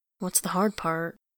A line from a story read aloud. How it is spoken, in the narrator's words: He says quietly